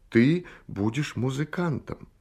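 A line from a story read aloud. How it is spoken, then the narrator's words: Heartfelt, tender. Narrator (Russian): Он сказал проникновенным и ласковым голосом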